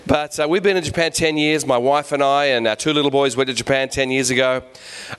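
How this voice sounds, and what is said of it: Neutral Australian accent. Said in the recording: “we're Australians ... So this is my neutral Australian accent. This is the good one ... my international English”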